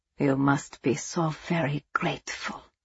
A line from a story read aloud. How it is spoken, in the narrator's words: von Essen said softly